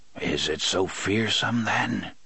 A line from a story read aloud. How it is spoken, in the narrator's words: Court muttered, as if in his sleep